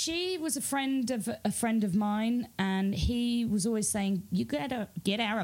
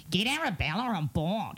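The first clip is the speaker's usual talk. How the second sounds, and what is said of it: Nasal Australian accent. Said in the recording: “He's from Australia... that accent back to him... that lovely nasal Australian voice”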